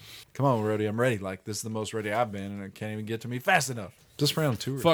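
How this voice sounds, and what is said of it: Usual voice. Nothing is said of it.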